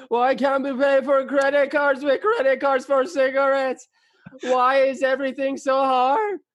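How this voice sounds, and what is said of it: Imitates another person's voice. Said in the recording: “Should I do Seinfeld?”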